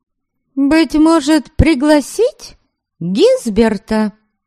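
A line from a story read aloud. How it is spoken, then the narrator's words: Deliberately loud question. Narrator (Russian): Нарочито громко осведомилась она, явно желая, чтобы это услышал Норберг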